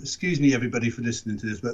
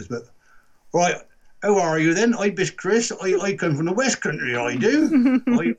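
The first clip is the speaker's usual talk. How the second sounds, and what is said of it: Exaggerated Wiltshire West Country accent. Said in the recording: “in Wiltshire, this is the accent ... so that is the accent ... Wiltshire accent ... a bit toned down to what my dad would be saying”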